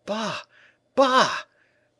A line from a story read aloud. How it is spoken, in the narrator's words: exclaimed the tailor, terrified